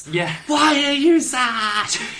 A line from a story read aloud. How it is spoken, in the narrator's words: Amethyst realises that Stephen's sad and just shouts